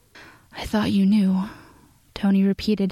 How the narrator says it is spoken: his voice breathy

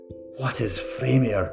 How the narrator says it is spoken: Mytham gasped

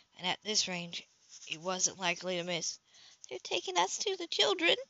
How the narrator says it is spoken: Darcy mumbled

